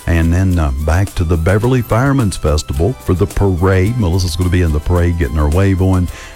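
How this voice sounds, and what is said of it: Heavy country accent. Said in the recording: “I've got a heavy country accent. I know it. I'm grain-fed country.”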